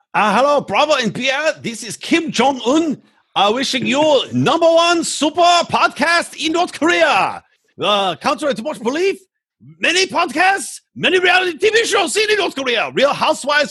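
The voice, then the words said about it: Fake Korean accent impersonating Kim Jong-un. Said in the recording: “do your fake Korean voice”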